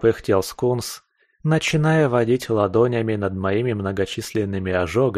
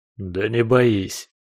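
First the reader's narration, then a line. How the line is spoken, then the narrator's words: Moaning in pain. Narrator (Russian): простонал я, чувствуя, как источающие прохладу ладони целителя приглушают жар и нестерпимый зуд ожогов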